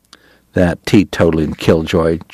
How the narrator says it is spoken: Chalky muttered

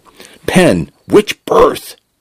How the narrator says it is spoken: Jackson shouted

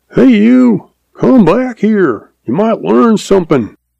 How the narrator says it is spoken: Old uncle hollers after him

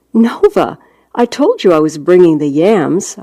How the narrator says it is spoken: I said

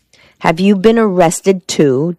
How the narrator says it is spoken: Della cried

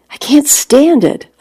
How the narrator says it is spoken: I cried out

